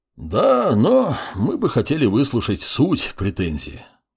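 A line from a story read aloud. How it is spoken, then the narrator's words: Sigh. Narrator (Russian): вздохнул Гарат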